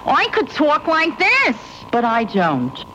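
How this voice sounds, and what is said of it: Exaggerated New York accent. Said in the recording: “I can even make my New York accent worse.”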